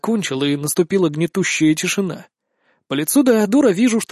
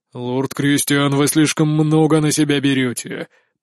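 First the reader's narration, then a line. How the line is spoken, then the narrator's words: Booming, frowning. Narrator (Russian): прогремел, нахмурившись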